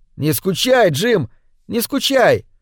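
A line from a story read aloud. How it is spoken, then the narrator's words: Shouting. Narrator (Russian): Он закричал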